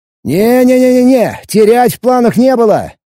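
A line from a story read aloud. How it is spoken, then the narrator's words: Shouting. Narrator (Russian): крикнул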